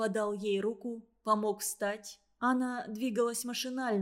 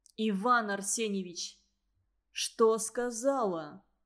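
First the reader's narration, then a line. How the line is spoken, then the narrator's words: Sighing. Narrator (Russian): Петя вздохнул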